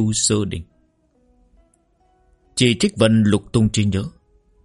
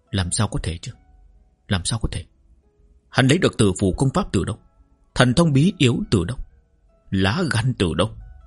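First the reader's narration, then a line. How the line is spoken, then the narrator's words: Incredulous mutter. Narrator (Vietnamese): Trì Trích Vân vẫn khó tin, lẩm bẩm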